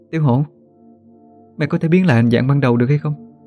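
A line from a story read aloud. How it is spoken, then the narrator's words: Sighing, distressed. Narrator (Vietnamese): Thắm thở dài khổ não nói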